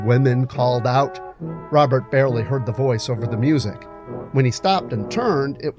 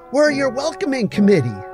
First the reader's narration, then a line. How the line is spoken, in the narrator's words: stated Ellie loudly with a smile